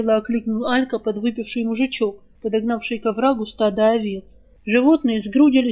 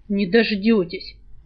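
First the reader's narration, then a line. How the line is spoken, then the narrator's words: Through gritted teeth. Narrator (Russian): процедил саврянин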